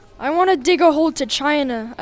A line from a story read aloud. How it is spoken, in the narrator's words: exclaimed